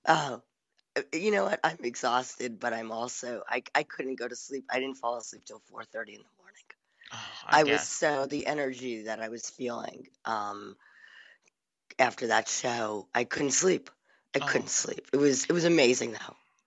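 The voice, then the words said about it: Sexy-sounding, exhausted voice. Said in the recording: “I'm loving the sexy voice. ... I know you just must be exhausted.”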